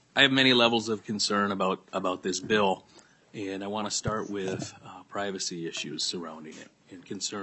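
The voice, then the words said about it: Raspy, strained voice. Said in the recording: “my voice is a little raspy ... I can't hear very well ... you're struggling like I am with your voice”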